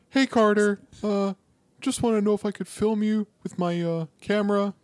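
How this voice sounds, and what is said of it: Imitates another person's voice. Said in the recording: “my Nicholas Braun impression. That's my Cousin Greg impression. ... It's pretty good.”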